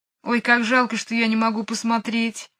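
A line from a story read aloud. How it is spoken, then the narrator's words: Sad. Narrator (Russian): грустно сказала Джейн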